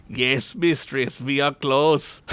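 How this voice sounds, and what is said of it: Character voice with an odd accent. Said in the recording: “I don't know what accent this is.”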